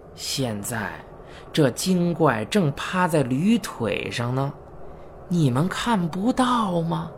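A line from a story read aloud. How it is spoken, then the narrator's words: Slow, sinister voice. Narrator (Chinese): 老师故意露出阴森的表情，缓缓地说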